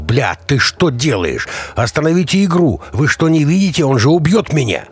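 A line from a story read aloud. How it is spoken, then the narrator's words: Panicked yell. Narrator (Russian): заорал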